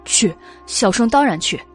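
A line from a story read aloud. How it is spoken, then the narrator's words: Hurried. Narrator (Chinese): 袁耀……急忙道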